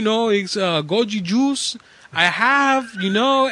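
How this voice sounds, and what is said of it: Imitates a thick accent. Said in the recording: “My dad had a really thick accent”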